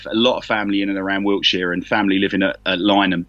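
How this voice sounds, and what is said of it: London accent. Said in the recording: “I'm a Londoner, as you can probably tell from the accent.”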